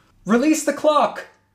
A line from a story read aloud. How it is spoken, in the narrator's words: shouted into the walkie-talkie